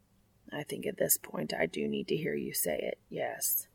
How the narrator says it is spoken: Castiel replies quietly

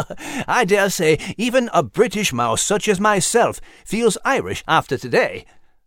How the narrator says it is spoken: Nigel interjected with a chuckle

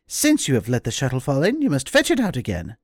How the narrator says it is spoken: she scolded her sharply, and was so merciless as to say

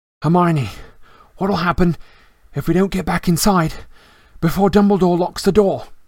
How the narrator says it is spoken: Harry panted

